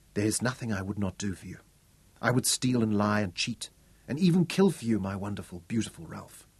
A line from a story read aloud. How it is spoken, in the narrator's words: she whispered